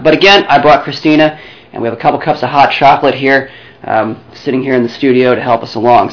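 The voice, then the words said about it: Worn-out, tired-sounding voice. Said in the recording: “I'm a bit lethargic on the open... My voice is shot.”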